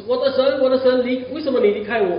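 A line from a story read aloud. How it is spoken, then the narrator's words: Loud anguished cry. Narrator (Chinese): 主耶稣在被钉的时候，大声喊着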